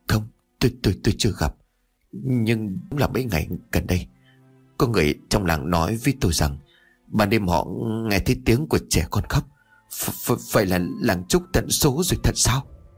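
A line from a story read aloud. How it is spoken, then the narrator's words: Stammering reply. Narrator (Vietnamese): Trường làng liền ấp úng đáp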